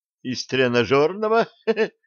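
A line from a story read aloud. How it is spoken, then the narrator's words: Giggled. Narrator (Russian): хихикнул Джим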